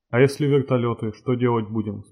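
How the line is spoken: Plain. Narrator (Russian): спросил Насвай

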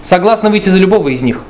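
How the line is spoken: Plain. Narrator (Russian): ответила дочь

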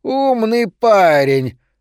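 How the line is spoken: Shrill squeal. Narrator (Russian): взвизгнул он

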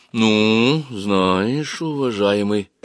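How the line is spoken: Strained, trembling voice. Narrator (Russian): выдавила она, наконец, дрожащими губами

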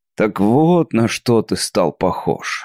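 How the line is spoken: Annoyed grumbling. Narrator (Russian): с досадой проворчал я

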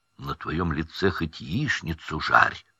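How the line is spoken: Whisper. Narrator (Russian): шепнул Рон

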